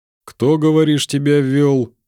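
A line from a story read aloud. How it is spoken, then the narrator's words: Muffled, dull question. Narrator (Russian): глухо поинтересовался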